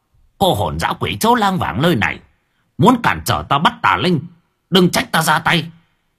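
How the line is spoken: Old man's sudden shout. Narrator (Vietnamese): Bất ngờ lão thể pháp quát

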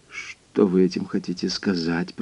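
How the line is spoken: Muttering. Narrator (Russian): пробормотал он

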